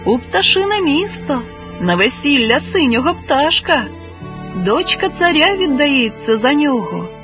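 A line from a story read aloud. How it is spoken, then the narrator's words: Cheerful reply. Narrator (Ukrainian): весело відповів їй хтось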